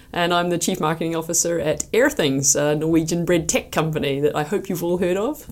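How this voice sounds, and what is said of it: Slight New Zealand accent. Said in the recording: “I'm from New Zealand originally, so you can probably hear a little bit on the accent.”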